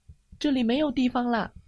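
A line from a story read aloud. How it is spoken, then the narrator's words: Shouting in unison. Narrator (Chinese): 动物们齐声的叫道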